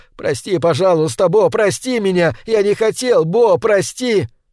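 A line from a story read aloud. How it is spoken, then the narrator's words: Breathless shout. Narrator (Russian): Задыхаясь, я закричал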